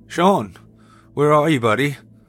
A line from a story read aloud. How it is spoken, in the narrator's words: I called out, now aware of the anxiety bubbling within me